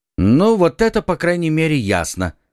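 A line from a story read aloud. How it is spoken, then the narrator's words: Plain. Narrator (Russian): сказал Д'Артаньян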